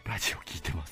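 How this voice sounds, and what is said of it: Quiet, hushed small voice. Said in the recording (Japanese): “小声”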